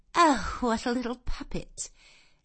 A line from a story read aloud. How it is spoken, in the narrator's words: Miss Ingram had looked down at her with a mocking air, and exclaimed